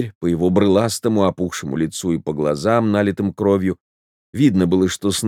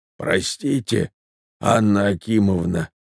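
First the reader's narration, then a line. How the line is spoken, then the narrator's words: Hoarse voice. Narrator (Russian): проговорил хриплым голосом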